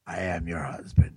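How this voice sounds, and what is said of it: Darth Vader voice impression. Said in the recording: “did his Darth Vader voice ... he sounds just like him ... It's scary.”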